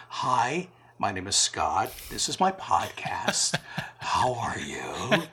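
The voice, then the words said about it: Put-on public radio announcer voice. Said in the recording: “I put my NPR voice on”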